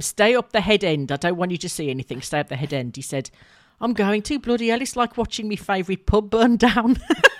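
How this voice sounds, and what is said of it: Put-on Birmingham accent. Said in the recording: “I'm sorry for the accent, Birmingham people”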